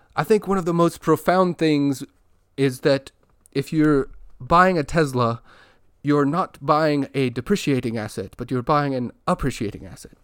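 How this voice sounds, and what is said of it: Poor imitation of Elon Musk's accent. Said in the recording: “my attempt at imitating his fake accent or his inconsistent accent was poor”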